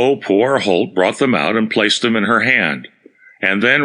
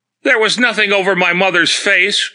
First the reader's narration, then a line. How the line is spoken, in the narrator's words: cried the lady at length